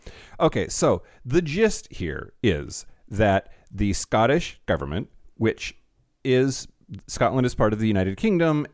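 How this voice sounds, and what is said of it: American accent. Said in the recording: “if you can't tell by my accent, y'all, I'm an American”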